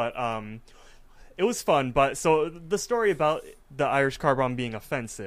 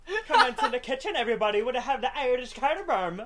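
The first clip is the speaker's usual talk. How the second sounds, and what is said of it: Bad put-on Irish accent. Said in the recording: “I was speaking in an Irish accent the entire time ... probably the worst Irish accent anyone's heard”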